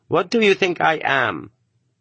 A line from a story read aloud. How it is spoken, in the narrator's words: He spoke Russian correctly and fluently, but with an accent